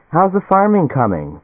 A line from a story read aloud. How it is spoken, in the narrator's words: Helen Morris called cheerfully